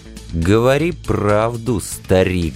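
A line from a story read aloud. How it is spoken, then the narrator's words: Restrained growl. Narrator (Russian): сдержанно зарычал я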